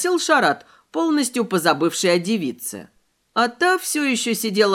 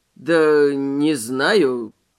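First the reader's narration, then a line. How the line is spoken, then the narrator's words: Mumbling. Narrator (Russian): промямлил Мэй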